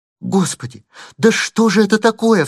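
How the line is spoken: Startled cry. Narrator (Russian): вскрикнула барышня

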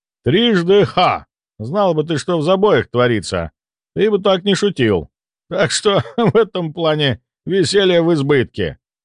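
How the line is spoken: Chuckling. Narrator (Russian): хохотнул Ивар

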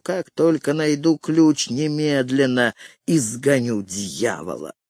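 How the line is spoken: Muttering. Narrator (Russian): сказал, бормоча на ходу

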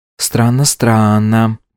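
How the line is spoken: Drawl. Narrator (Russian): протянула Варя

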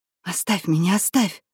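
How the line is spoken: Whisper. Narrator (Russian): шептала Марья

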